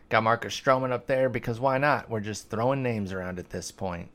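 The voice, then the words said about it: Sarcastic tone. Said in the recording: “I sound like I'm being sarcastic on that, because I am”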